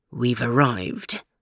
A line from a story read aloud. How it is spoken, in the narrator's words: announced Jock quietly